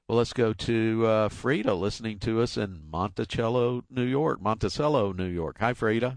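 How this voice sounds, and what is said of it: Polished radio announcer voice. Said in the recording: “I love your perfect radio voice.”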